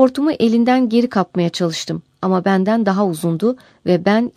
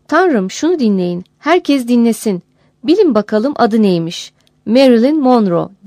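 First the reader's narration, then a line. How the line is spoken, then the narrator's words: Cried out. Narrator (Turkish): diyerek haykırdı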